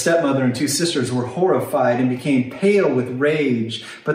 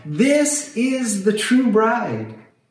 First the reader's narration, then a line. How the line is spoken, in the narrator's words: he cried out